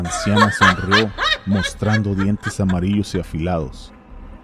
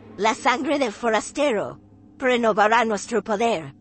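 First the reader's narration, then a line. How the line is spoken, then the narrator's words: Cold voice. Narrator (Spanish): dijo con voz fría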